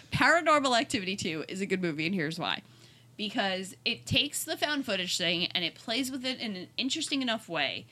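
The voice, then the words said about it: New York accent. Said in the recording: “It's my New York accent coming through.”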